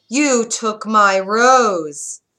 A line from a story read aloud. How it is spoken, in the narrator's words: Roared a voice